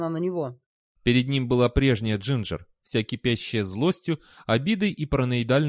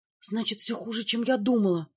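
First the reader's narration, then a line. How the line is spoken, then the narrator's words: Whisper. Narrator (Russian): прошептала она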